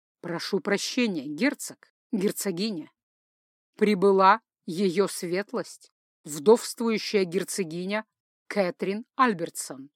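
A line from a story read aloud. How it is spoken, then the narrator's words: Butler's booming announcement. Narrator (Russian): объявил громовым голосом дворецкий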